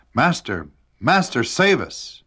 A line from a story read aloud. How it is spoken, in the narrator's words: they cried out